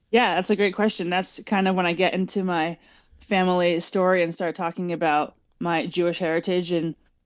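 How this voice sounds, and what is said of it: American accent. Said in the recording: “sounds American”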